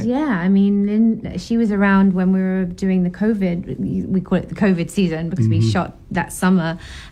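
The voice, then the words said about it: British accent. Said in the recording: “her actual British accent”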